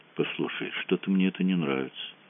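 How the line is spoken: Said quietly. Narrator (Russian): тихо сказал Мазур

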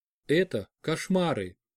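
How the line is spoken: Quiet. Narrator (Russian): тихо сказала Радмила

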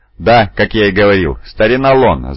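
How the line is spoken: Laughing. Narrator (Russian): засмеялся Тинг, один из пашей Пия

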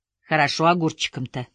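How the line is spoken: Plain. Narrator (Russian): спросила женщина

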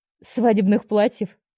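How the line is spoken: Laughing. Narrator (Russian): рассмеялась я

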